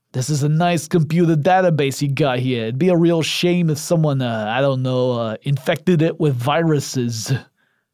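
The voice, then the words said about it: Bad put-on gangster accent. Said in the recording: “nerd gangster stuff ... I apologize for the terrible accent.”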